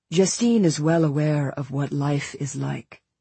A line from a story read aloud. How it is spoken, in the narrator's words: responded coldly